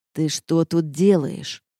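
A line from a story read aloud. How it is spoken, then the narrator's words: Through gritted teeth. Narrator (Russian): процедил Рейнард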